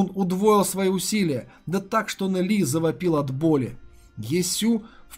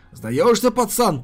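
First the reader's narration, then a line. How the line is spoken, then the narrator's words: Growled. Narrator (Russian): прорычал Ядзун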